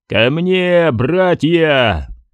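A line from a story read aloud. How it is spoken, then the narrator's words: Roar. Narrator (Russian): проревел он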